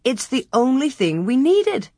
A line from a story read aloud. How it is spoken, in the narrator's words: Ma exclaimed